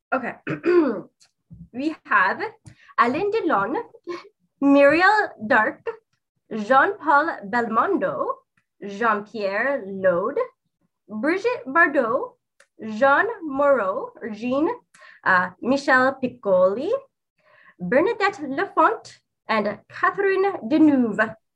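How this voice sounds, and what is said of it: Put-on French accent. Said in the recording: “You got to say this with a French accent.”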